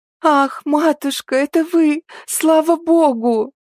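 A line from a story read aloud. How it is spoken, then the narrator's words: Sobbing. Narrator (Russian): С рыданиями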